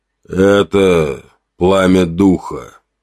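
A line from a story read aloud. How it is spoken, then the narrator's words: Muffled, strained. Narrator (Russian): голос Звездного прозвучал глухо, с заметным усилием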